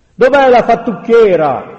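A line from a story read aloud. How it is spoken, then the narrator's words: Crowd yelling. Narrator (Italian): urlavano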